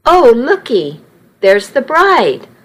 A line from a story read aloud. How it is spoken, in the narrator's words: one older lady exclaimed